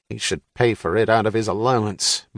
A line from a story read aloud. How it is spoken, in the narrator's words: muttered his father